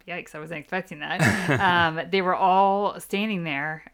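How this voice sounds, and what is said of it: Choked-up, emotional voice. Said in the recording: “I'm going to try not to get choked up ... I am getting choked up”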